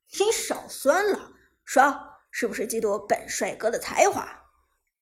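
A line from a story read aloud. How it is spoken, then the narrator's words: Chuckling. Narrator (Chinese): Lucky 嘿嘿一笑，道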